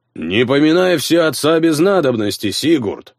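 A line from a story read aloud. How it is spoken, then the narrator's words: Booming resonant bass. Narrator (Russian): Прогудел чей-то зычный бас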